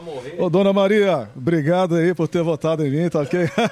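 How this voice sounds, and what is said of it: Imitates another person's voice. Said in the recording (Portuguese): “imitação ... fala que é o Bolsonaro que tá ligando pra minha avó”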